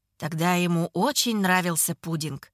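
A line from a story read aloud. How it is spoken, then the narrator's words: Quiet. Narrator (Russian): тихо говорит он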